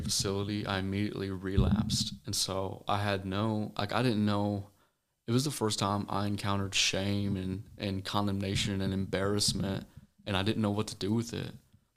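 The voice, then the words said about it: Missouri accent blended with Tennessee. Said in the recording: “You probably tell it by my accent. And my dad's from Tennessee, so I got a blend of both worlds.”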